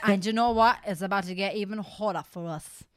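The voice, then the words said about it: Slips into an Australian accent. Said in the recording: “What accent was that? Did you turn Australian halfway?”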